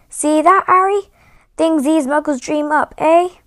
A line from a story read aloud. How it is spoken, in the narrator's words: saying loudly